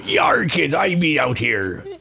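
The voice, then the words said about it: Gravelly pirate accent. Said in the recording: “AJ wanted me to do a pirate accent ... Gravelly. ... it's too gravelly. It would get right to my throat.”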